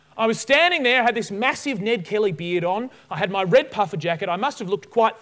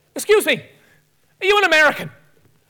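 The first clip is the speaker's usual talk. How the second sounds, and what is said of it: Bad put-on Irish accent. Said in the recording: “his Irish accent, and forgive me for the terribleness of this accent, it's appalling”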